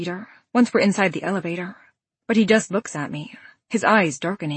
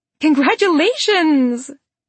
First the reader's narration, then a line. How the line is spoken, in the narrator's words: my young female neighbors ... they squeal and yell out